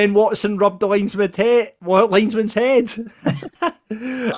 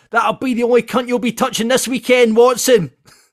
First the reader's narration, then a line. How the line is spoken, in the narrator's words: a Falkirk fan shouted